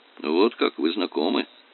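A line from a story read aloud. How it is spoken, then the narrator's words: Gloomy. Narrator (Russian): уныло произнес Дон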